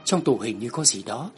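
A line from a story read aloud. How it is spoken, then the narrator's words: Whispered question. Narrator (Vietnamese): Tôi ghé sát bên tai cậu ta khẽ hỏi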